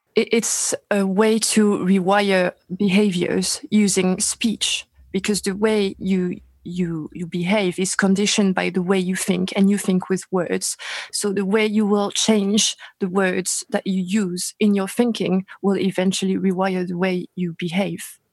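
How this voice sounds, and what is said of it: French accent in English. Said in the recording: “you're obviously have an accent. You're not from the United States. ... Paris, France.”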